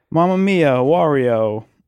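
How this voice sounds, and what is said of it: Exaggerated Italian accent, Wario impression. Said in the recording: “you go into the Italian accent ... We'd go a little more, maybe ... Do the Wario noise?”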